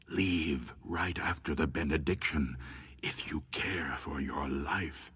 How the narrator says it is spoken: Josephine Kerr leaned toward her and whispered

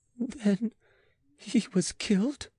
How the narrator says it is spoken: she faltered, making a great effort

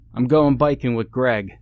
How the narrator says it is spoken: called out

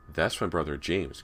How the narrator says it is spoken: Callie said

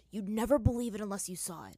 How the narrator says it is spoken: Zuko whispered to Aang

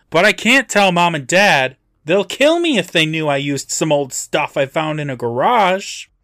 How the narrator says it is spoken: loudly continues

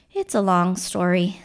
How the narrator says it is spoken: Spidey sighed

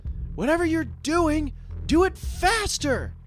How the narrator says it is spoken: shouted Miss Fortune

